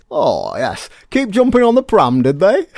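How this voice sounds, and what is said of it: Imitates a sitcom character's voice. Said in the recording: “do a really good Potter impression. ... I didn't say it was good, I said I was happy with it.”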